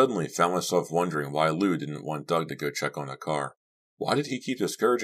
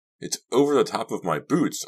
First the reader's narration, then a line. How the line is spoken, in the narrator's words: I cried